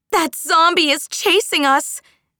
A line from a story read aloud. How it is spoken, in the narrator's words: Minnie yelled at Aru